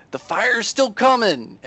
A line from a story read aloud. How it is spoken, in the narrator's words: Yempator yells